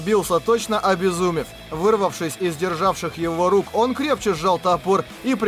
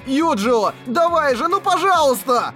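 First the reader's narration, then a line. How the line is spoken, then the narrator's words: Desperate shout. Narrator (Russian): Кирито отчаянно закричал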